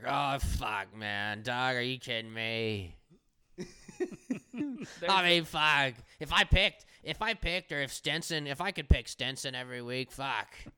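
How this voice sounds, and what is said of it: Disgruntled 60-year-old man impression. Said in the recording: “Another just dynamite impersonation by ... making Bobby Puffman sound like a 60-year-old fucking disgruntled OSU Cowboy.”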